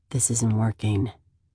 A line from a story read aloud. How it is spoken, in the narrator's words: he says hoarsely